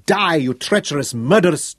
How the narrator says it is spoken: Tungata roared down into Peter Funga-bearer's upturned face

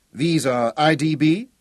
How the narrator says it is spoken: he asked

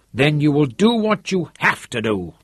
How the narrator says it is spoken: said harshly

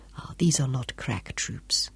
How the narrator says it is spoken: Job muttered contemptuously

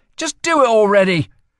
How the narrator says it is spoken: she snapped

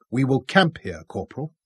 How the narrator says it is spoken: Robin told him firmly

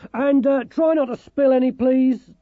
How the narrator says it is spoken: Dorcas shouted up after them

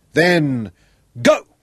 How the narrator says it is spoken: shouted into his loud hailer

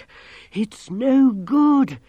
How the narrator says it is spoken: wheezed

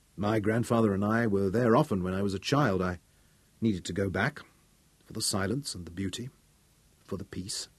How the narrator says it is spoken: he explained quietly

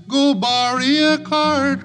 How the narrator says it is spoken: cried Billy Barlow

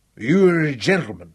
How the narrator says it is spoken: Jock slurred unevenly

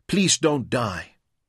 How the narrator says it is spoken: pleaded

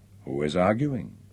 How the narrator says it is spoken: asked quietly

